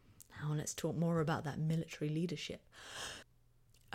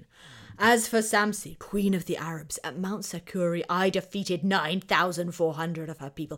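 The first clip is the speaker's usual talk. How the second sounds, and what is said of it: Put-on Assyrian king voice. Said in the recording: “my best Assyrian impersonation.”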